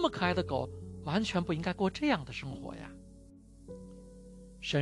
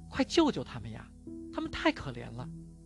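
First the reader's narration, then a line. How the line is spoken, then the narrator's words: Hurried, urgent plea. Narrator (Chinese): 我急忙对神说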